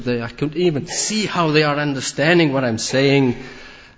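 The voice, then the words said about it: Accent with Scottish influence. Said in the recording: “my post-Scottish accent”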